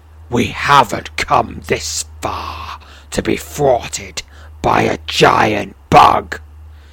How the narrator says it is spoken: he sneers, his voice far stronger and more sinister

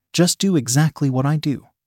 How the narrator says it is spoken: Sarah said

